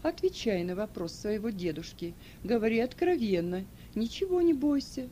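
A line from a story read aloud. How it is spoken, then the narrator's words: Gentle. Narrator (Russian): ласково сказал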